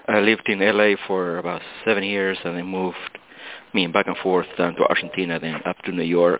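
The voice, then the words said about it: Argentine-accented English. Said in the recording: “I love your accent ... I am originally from Argentina”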